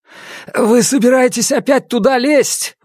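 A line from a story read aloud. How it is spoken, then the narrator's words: Exclaiming. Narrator (Russian): воскликнул Раневский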